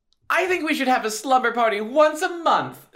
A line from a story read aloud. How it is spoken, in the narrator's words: she exclaimed